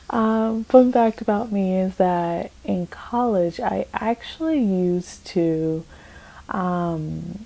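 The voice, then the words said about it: Low, soft late-night bedroom voice. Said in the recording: “it's late. and I'm sure I've got like my bedroom voice on.”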